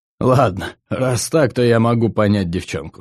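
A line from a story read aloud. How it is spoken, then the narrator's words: After laughing. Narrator (Russian): сказал он, отсмеявшись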